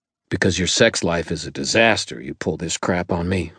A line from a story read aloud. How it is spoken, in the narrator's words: I growled